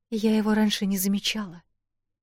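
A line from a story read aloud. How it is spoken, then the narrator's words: Quiet. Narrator (Russian): тихо сказала Эл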